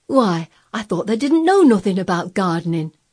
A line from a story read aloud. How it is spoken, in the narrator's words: he exclaimed